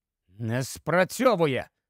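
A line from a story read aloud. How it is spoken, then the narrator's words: Hoarse rasp. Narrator (Ukrainian): прохрипів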